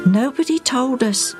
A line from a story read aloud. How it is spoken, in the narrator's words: Agate said sadly